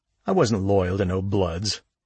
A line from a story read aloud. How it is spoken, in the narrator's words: snapped Pipe